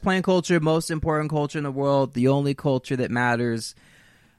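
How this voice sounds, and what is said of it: Flat monotone voice. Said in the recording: “I will try to work on this monotone thing”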